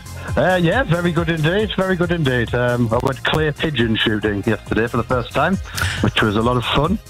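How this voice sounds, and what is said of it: Northeast English accent. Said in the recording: “Confirming with your accent, this is Washington in the Northeast”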